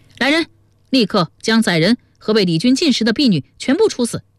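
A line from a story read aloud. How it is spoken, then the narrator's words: Angry outburst shout. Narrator (Chinese): 忽见手下人弄得在宾客面前失了面子，顿时发作起来，叫道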